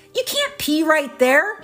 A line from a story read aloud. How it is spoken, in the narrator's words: shouted the undertaker